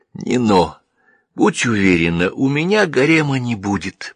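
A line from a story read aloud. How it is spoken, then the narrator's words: Intimate whisper at ear. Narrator (Russian): прошептал я, касаясь губами ее ушка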